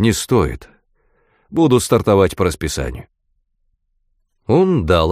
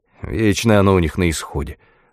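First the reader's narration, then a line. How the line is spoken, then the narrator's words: Grumble. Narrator (Russian): буркнул Свен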